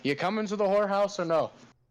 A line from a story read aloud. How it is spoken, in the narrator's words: I yell at Plethrin